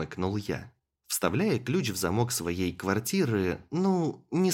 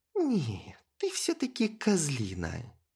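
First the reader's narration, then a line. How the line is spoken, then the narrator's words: Drawling. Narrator (Russian): протянула Криста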